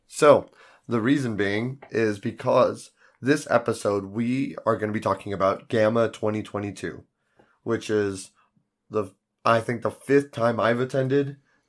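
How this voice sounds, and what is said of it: Hoarse, crackly, worn-out voice. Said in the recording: “my voice is much more, or less crackly on days I'm feeling better... My voice is shot”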